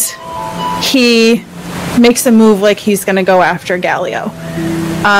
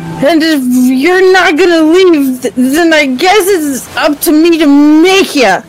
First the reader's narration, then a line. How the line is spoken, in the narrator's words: he yells out again